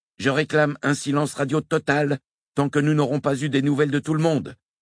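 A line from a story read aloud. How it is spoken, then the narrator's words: Shouted over radio. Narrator (French): cria David Brown dans son com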